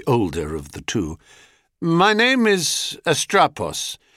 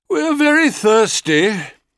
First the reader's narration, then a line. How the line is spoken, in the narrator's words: he said, with a loud yawn